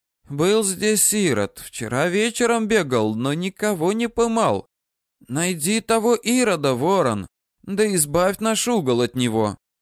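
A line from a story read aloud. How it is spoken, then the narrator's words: Slightly hoarse. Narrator (Russian): Она сипловато сказала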